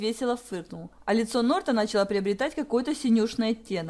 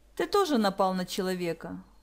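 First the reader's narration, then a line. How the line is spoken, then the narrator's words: Calm objection. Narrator (Russian): спокойно возразила Захара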